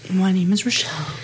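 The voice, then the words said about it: Quiet whispering voice. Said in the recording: “Why are you speaking so quietly ... I'm whispering so that our baby will sleep.”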